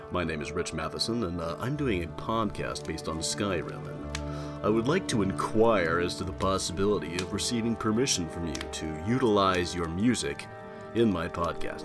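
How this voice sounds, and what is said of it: Deep, formal phone voice. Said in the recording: “did the deep phone voice.”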